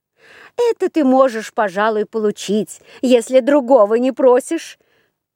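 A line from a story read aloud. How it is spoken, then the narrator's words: Laughing while speaking. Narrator (Russian): Засмеялись они и говорят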